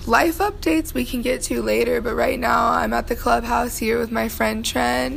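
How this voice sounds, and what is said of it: Raspy voice. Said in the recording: “my voice is really raspy”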